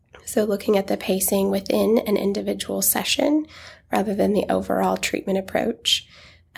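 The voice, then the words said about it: Congested voice from a cold. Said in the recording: “As you guys can probably notice, I've got a bit of a cold.”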